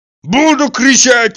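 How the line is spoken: Yelling. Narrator (Russian): вопил Тарантьев

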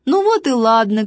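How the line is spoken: Shout with laughter. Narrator (Russian): крикнул Важный, засмеялся

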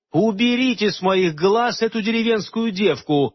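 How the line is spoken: Angry shout, fairy queen. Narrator (Russian): гневно крикнула королева-фей

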